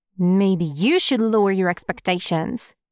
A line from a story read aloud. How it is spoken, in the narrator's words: Wayne grumbles